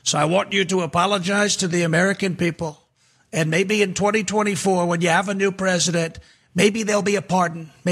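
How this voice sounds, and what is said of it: Donald Trump impression. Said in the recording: “the President Donald Trump impersonator”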